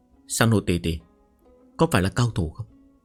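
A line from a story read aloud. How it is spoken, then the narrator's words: Soft, childlike, innocent. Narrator (Vietnamese): Hàn Nguyên Học khuôn mặt ngây thơ như trẻ con, kéo tay của Vương Sàn Hồ khẽ nói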